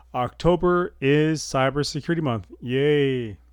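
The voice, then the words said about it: Sarcastic, unenthusiastic flat delivery. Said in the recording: “I guess you can hear the enthusiasm in my voice.”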